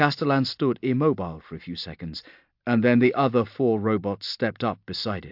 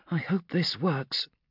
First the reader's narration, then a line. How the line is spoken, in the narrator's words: muttered Gelsa